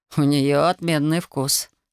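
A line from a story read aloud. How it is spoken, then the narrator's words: Amused snort. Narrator (Russian): хмыкнул Рид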